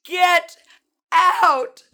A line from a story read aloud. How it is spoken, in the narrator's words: I screamed to evil